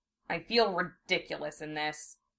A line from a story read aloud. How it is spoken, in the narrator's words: said sulkily